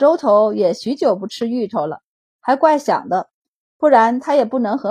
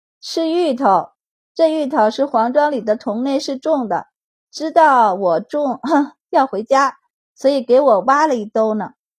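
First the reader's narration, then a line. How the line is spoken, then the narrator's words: Cheerful, giggling. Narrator (Chinese): 笑嘻嘻的道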